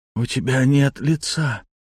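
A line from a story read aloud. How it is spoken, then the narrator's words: Hoarse whisper. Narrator (Russian): хрипло прошептала она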